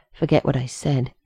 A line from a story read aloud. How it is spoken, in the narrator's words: John muttered to Rodney